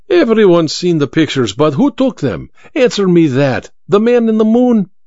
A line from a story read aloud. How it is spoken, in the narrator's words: Vera laughed at the memory